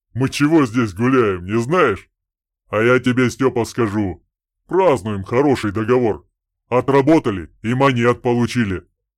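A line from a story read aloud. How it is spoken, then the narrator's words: Deep bass voice. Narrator (Russian): басил Добрыня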